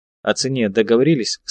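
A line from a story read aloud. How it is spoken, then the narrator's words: Plain. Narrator (Russian): спросил я Майербека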